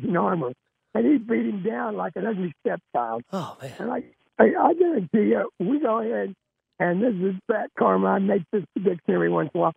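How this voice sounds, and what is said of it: Hoarse, strained voice. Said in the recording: “my voice is hoarse because I not only scream my scream my guts out for the Chiefs ... That's why my voice is shot.”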